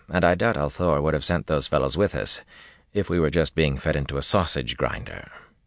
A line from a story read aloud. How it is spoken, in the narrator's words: he told Duresin dryly